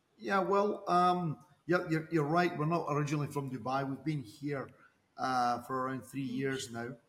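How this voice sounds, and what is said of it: Scottish accent. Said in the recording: “as you will hear from their accents, they're originally not from Dubai... That's pretty obvious from your accent.”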